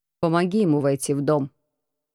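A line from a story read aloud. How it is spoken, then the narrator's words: Plain. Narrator (Russian): сказал Лористон Лазарю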